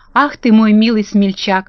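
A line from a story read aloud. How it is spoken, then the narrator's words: Exclaimed tenderly. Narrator (Russian): воскликнула Элли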